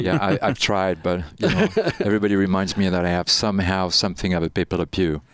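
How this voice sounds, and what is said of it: Light French accent in English. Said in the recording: “you have a bit of an accent... Paris, France, actually... this little bit of a really delicious accent, because I love hearing French people speak English”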